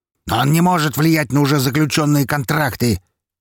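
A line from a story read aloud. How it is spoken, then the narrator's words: Barked. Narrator (Russian): рявкнул Распутин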